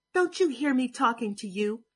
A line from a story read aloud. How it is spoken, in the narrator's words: He shout